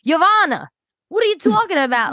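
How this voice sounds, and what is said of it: Imitates a severe, exaggerated accent. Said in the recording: “I love his crazy accent. It's so severe.”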